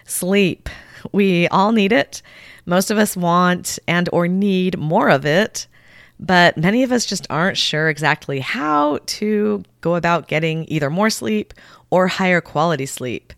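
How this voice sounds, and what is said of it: Voice affected by a cold. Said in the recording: “I've got a little bit of a cold today, so I apologize in advance for my voice sounding a little differently”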